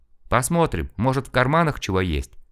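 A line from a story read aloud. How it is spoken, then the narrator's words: Plain. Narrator (Russian): сказал шофер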